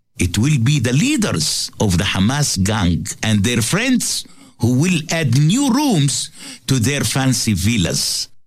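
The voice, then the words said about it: Non-native English accent. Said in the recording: “he says gang as gang ... It's his accent ... it's different”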